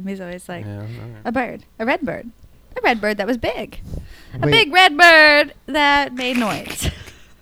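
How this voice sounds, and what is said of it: Jeff Goldblum impression. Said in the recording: “Is that your Jeff Goldblum impression? ... The Jeff Goldblum”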